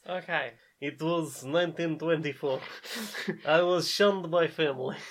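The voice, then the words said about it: Put-on Russian-ish Eastern European accent. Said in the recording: “I don't know if this is a Russian accent... Sort of Eastern European. Northern European accent... This is a 1920s elephant accent... This is film noir.”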